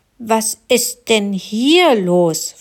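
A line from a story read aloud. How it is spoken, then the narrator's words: Plain. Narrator (German): fragte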